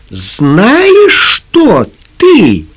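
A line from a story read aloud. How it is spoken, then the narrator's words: Angry shout. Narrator (Russian): гневно крикнула Лизи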